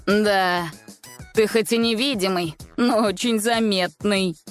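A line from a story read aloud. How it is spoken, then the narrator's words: Mocking chuckle. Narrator (Russian): обидно хохотнул преподаватель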